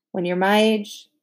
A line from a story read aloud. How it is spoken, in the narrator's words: Leslie gave a little sigh